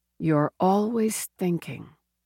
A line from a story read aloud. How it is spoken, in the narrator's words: she murmured